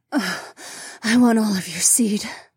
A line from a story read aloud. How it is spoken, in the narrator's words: the saber-toothed woman moaned